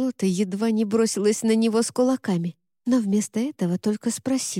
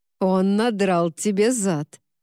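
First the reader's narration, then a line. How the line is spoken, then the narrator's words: Grim laugh. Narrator (Russian): мрачно рассмеялся Уорд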